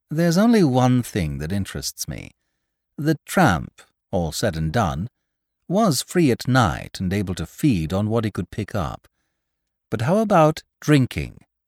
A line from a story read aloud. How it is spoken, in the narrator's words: The gentleman said, very calmly